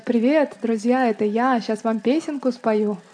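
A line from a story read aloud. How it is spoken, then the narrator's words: Woman's voice. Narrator (Russian): женским голосом сказать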